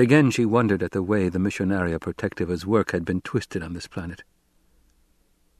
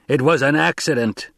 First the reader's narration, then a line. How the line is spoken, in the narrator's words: Jameis roared